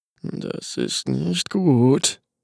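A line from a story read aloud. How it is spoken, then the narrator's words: Murmured. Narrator (German): murmelte Paolo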